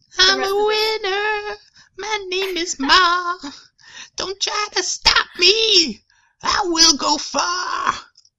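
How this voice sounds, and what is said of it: Sung in a high falsetto. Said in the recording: “it'll be like a high falsetto.”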